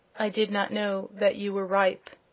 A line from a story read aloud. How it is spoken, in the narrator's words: answered the prince, in a low voice